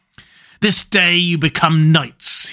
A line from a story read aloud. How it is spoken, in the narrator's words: he laughed fiercely